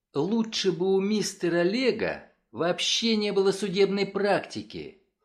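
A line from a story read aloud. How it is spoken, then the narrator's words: Sudden passionate exclamation. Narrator (Russian): С неожиданной страстью воскликнула она вслух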